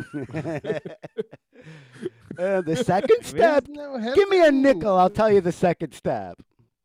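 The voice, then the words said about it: Poorly done put-on Jewish accent. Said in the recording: “so bad at doing a Jewish voice”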